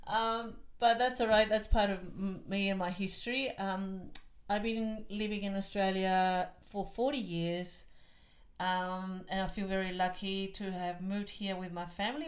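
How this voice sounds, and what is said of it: Chilean accent in English. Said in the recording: “You'll pick up from my accent that I wasn't born here. I'm from Chile.”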